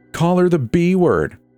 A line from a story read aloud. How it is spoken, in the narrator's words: Rowan shouted with a laugh